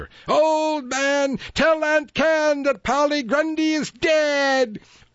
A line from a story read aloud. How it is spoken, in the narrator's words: the cats gave a strange shriek and called out together